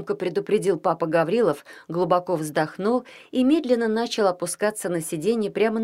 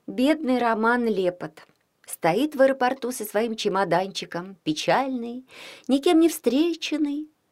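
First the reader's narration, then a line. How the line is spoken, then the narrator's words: Said with a sigh. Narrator (Russian): сказала Вика и вздохнула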